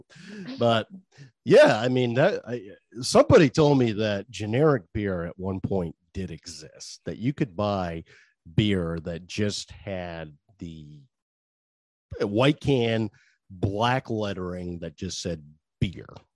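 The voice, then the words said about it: Regional American accent. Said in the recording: “That's my main accent. It's getting worse as I get older.”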